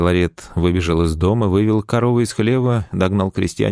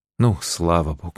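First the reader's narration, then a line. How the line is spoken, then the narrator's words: Sigh. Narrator (Russian): вздохнула Феозва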